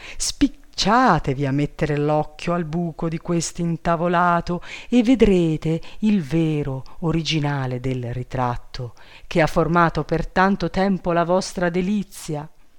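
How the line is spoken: Exclaimed. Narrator (Italian): esclamò

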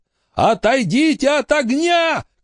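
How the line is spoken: Shouted. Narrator (Russian): крикнул Билли

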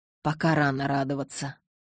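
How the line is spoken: Mutter. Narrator (Russian): пробормотал Карлайл

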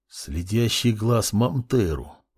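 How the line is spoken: Muttered, young man. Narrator (Russian): пробормотал парень

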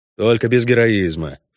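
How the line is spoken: Snorting. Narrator (Russian): фыркнул Геральт

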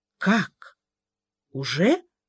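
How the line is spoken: Strained, forced out. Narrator (Russian): только и смогла она выдавить

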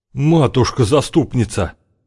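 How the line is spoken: Rider's exclamation. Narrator (Russian): воскликнул другой всадник

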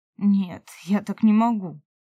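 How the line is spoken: Muffled, hollow voice. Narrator (Russian): глухо проговорил он

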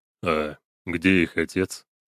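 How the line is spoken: Quiet. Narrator (Russian): негромко спросил он

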